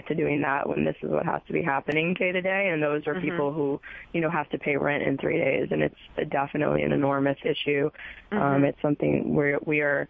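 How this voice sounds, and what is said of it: Hoarse, raspy voice. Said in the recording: “as you can, I'm sure, hear from my lovely, sexy voice right now. We all have this, like, rasp in our throats”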